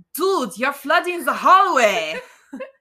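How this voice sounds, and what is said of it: Put-on German accent, yelling. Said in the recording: “a German accent yell ... I like your German accent.”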